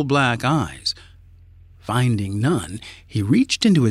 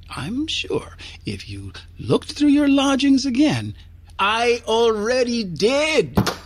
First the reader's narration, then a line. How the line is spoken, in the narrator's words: he cried, banging his fist on the countertop